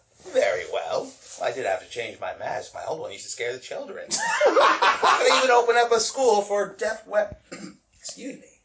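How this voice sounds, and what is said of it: Character voice of Lord Death. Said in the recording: “You are doing a voice. What voice are you doing, dear? ... I'm doing the voice of Lord Death.”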